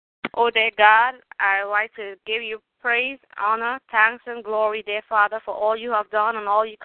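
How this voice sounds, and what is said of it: Trinidadian accent. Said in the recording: “I'm from Trinidad and Tobago ... My accent is still from my country.”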